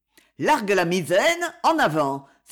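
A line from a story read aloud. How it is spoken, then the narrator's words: Exclaimed. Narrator (French): s'écria Gilbert, qui croyait faire un de ses rêves où tout ce qu'on souhaite s'accomplit avec la plus grande facilité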